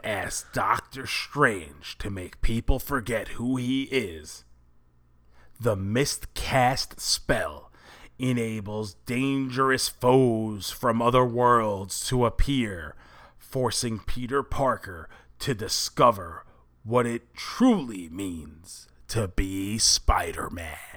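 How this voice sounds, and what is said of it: Dramatic movie trailer voice. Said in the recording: “the movie trailer voice”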